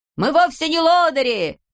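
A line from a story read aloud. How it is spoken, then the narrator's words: Distant shouting from behind fence. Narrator (Russian): кричали из-за ограды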